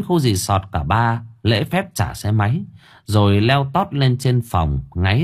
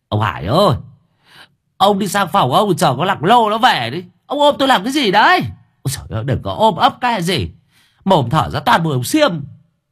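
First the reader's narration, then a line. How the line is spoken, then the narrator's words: Shrieking. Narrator (Vietnamese): Giữa đêm khuya lại thỉnh thoảng nghe tiếng cậu Cẩn rú lên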